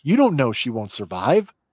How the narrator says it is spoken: Angrily, Omega shoots back

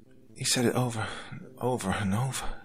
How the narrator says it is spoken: Sarah whispered softly

